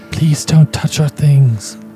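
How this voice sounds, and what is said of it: Ghastly ghostly character voice. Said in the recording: “in this ghastly voice”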